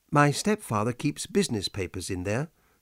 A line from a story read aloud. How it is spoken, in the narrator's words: said Helen